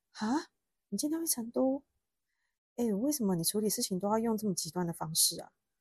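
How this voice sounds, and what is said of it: Sleepy, just-woken-up voice. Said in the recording (Chinese): “用那种没睡醒的声音说”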